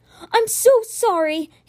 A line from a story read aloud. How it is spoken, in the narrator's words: he cried